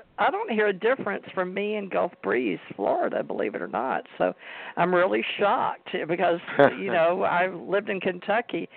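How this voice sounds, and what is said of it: Southern US accent. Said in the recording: “my southern accent. I lost my accent when I was in the military, but I got it back”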